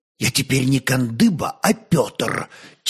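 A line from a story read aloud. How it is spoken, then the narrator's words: Quiet but firm correction. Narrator (Russian): тихо, но твердо поправил его собеседник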